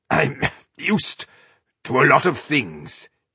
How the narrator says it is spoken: he croaked

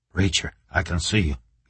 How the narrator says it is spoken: he whispered

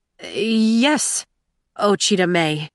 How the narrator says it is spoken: he stammered

